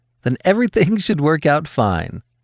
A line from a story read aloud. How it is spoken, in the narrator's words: Marigold chuckled